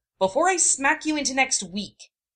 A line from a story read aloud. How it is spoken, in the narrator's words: she yelled